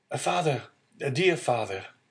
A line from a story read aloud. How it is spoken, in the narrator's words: a well-known voice behind him exclaimed